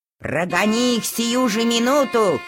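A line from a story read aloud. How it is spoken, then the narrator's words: Shouting. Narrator (Russian): кричала она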